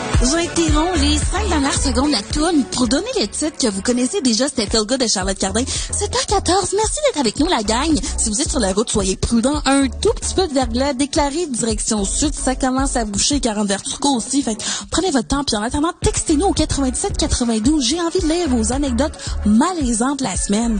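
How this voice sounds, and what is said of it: Quebec commercial radio host voice. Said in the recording (French): “imitations des radios commerciales québécoises et françaises ... imitation d'une radio commerciale québécoise”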